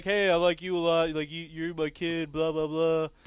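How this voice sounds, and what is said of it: Pretty good Triple H impression. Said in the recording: “It's actually a pretty good impersonation of Triple H. ... wasn't that bad”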